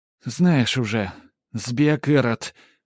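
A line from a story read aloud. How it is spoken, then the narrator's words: Sighing. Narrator (Russian): Матрёна, вздохнув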